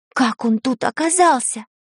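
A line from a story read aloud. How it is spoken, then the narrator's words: Whispered. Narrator (Russian): прошептала Таня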